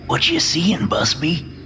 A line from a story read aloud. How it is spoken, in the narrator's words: Nomitz whispers